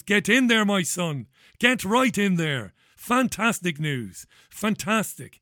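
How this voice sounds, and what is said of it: Grinning, delighted voice. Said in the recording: “I've got a grin from ear to ear. You can probably hear it in my voice.”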